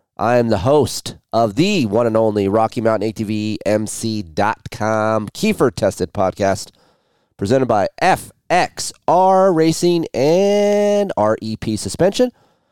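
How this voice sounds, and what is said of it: Raspy, sick-sounding voice. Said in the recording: “I've been sick for the last week... my raspy ass voice”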